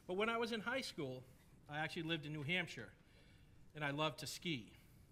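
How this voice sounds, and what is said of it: New England accent. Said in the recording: “I grew up in New England ... My accent doesn't give it away at all”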